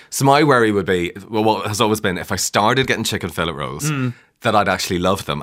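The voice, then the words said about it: Northern Irish accent. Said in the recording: “by your accent, people probably tell that you weren't born on this side of the border. ... from County Tyrone”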